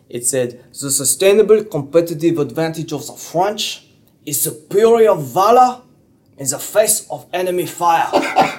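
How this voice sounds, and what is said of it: Put-on French accent. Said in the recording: “This is my French accent coming out.”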